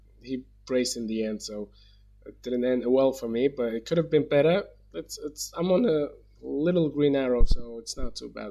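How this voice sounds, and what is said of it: Sick voice, sounds like a cold. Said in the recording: “you've got a bit of a cold ... you sound terrible”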